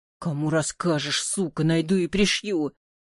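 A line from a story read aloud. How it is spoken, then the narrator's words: Hissing. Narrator (Russian): Потом прошипел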